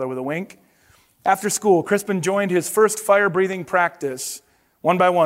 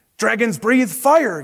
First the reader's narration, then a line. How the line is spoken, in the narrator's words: yelled the coach